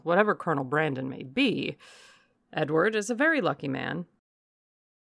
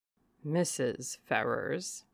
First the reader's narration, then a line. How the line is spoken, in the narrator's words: added he, lowering his voice to the tone becoming so important a subject